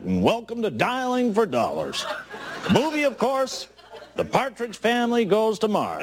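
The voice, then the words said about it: Walter Cronkite impression, newscaster voice. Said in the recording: “your Cronkite impersonation”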